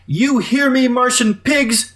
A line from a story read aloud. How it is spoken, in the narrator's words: She screamed